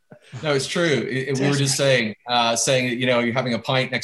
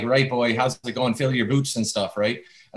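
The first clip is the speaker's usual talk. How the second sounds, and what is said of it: Canadian Maritimes accent. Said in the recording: “your accent sometimes comes from a certain part of Canada ... when I go out to the Maritimes in Canada”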